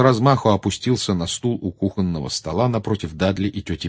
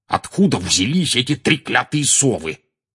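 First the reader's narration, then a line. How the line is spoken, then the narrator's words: Growled. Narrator (Russian): прорычал он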